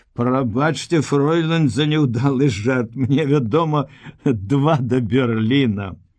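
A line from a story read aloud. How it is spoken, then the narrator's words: Laughing. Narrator (Belarusian): Руневіч засмеяўся і сказаў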